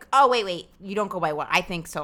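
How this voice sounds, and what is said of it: Put-on voice mimicking a white person. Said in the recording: “I'm doing a different voice for a white person.”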